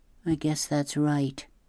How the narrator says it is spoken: Claudia said quietly

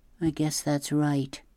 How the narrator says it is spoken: Claudia said quietly

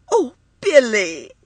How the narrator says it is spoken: she cried

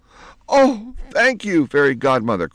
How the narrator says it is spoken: cried Penelope

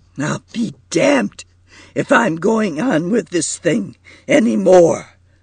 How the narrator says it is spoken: cried Marquis thickly

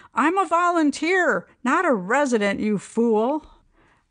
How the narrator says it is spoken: She got a bit testy, finally screamed

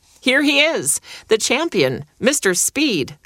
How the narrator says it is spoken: bellowed

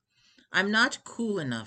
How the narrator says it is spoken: said evenly

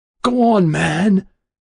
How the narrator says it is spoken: he cried beseechingly, almost in a shout

